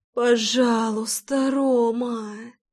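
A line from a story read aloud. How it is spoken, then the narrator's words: Moaning plea. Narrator (Russian): Застонала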